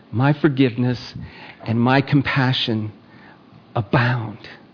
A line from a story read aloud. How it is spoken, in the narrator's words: the whisper of God that says